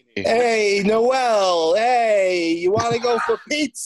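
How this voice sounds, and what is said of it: Put-on Italian accent. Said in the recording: “you're just stuck in a car with a Italian accent... you have a guy trying out Italian access.”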